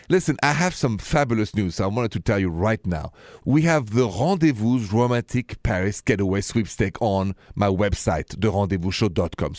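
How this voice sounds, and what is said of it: Thick French accent. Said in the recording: “Paris, where I'm from, with my thick accent”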